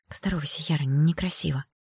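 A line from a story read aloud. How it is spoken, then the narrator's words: Quiet, stern. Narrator (Russian): мама тихо сказала, сведя брови к переносице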